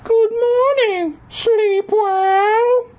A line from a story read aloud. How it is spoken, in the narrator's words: said in a completely different voice